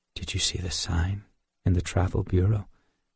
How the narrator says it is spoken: whispered

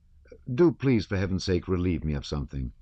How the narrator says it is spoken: said the courier

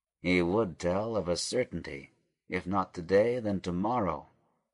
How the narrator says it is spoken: muttered Judah between his teeth

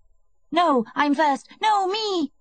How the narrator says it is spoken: screamed the children

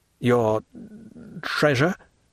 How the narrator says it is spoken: stammered Dantès

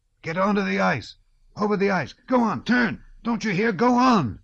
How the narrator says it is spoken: innumerable voices suddenly shouted

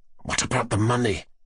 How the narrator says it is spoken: Fafichkin began in an undertone

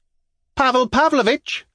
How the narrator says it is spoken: cried a voice from the carriage

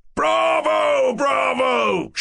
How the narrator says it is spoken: shouted Ferdyshenko

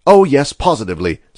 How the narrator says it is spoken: said Little Chandler

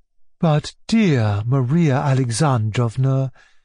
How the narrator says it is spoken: she said in the sweetest honeyed tones

